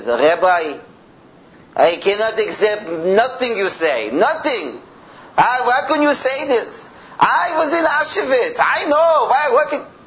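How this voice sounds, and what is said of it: Thick Yiddish accent. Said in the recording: “a man with a very thick Yiddish accent says”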